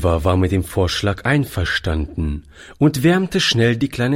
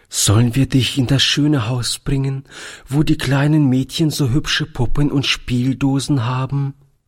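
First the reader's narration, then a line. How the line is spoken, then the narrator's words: Trembling voice. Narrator (German): fragte Toni mit zitternder Stimme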